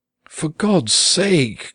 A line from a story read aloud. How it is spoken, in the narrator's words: cried the mother, nearly in tears